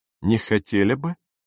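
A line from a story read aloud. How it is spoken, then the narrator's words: Chuckling question. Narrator (Russian): спросил капитан, хохотнув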